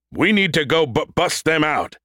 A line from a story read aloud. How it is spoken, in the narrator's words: Brody shouted, yelling to the room